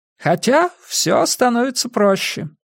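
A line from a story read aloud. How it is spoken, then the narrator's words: Cheerful voice. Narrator (Russian): произнес Пуаро веселым голосом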